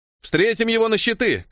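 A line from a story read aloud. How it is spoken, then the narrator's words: Shouted. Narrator (Russian): крикнул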